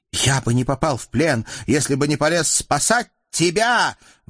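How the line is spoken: Heated shout. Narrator (Russian): в запале выкрикнул Юсуф

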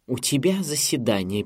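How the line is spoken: Irritated mimicking. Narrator (Russian): передразнила она, раздраженно

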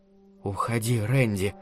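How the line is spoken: Dry whisper. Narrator (Russian): сухим шепотком сказала Алана

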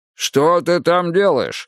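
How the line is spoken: Shouted. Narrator (Russian): закричал Мунк

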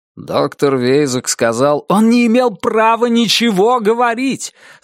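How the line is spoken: Shouting. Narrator (Russian): закричал Джонни

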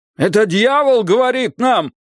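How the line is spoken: Man shouting. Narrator (Russian): закричал какой-то мужчина

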